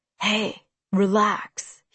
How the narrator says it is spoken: he breathed in my ear

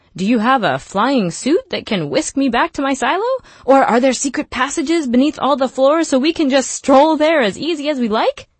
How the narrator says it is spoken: Solo laughed

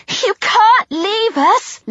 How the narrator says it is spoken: Liz pleaded

